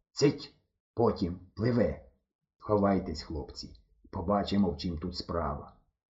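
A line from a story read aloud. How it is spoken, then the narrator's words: Quiet old man. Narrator (Ukrainian): дід тихо сказав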